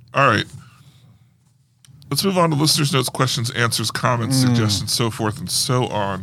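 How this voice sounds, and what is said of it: Strained, fading voice. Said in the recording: “my voice is going a little bit”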